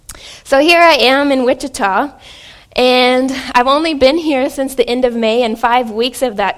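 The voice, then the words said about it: A noticeable non-local accent. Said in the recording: “I can hear my accent, which I didn't realize I had. But yes, can hear my accent,”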